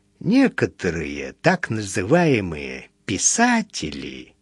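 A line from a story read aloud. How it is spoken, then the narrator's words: Gentle explanation. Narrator (Russian): мягко объяснил магнат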